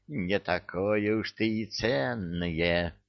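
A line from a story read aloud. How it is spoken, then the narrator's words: Sinister whisper. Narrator (Russian): зловещим голосом прошептал он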